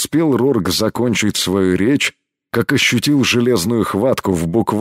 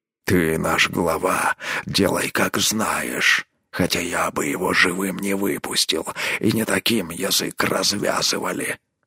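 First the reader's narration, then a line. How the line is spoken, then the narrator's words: Grumbled. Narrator (Russian): буркнул Рорк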